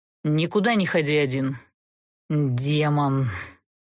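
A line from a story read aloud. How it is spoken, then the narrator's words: Through gritted teeth. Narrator (Russian): Процедил сквозь зубы Даггард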